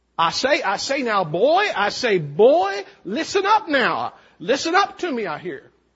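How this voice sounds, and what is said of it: Cartoon rooster voice, southern accent. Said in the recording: “My favorite Foghorn Leghorn phrase ... my imitations of a number of things, including almost all the characters of Looney Tunes ... southern accent”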